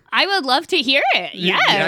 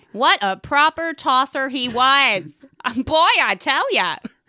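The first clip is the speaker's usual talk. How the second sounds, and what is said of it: Put-on American accent. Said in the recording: “Like an American.”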